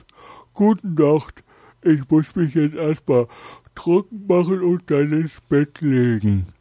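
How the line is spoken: Dog calling out. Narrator (German): der Hund rief

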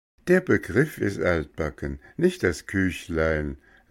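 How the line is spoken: Laughing. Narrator (German): lachte

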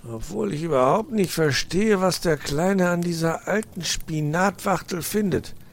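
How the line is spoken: Muttering to himself. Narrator (German): Vor sich hin murmelnd sagte

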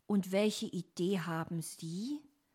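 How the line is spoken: Plain. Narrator (German): fragte Dominik

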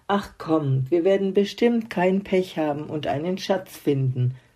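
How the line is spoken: Plain. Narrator (German): sagte Papa

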